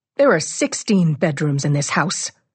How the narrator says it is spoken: she snaps

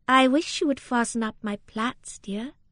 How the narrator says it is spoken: said Rosamond, with a little sigh

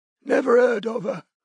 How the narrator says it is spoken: wheezed Betty

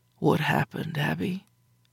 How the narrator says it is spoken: he asked, his voice deep and soft and lacking in all judgment

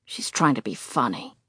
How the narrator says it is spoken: he grumbles

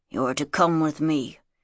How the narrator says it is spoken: he muttered

